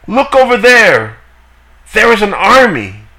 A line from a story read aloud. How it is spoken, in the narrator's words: someone shouts